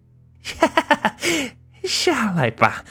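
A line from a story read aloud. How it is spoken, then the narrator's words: Eerie laughter. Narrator (Chinese): 那诡异的笑声常在耳边响起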